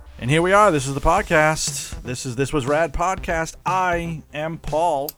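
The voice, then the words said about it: Hyped morning radio DJ voice. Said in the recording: “did a radio voice thing there ... I want to come in hot, so I decided I'm going to go with, like, morning zoo voice”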